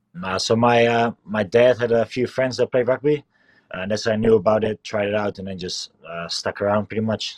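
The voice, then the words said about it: Slight New Zealand accent, Dutch speaker. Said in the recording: “I got the New Zealand accent going on a little bit ... Dutch is my first language”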